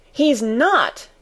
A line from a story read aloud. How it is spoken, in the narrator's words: cried Mary, almost shouting up the wall in her fierce indignation